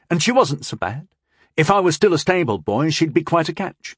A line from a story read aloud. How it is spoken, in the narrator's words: Tyndall pointed out quickly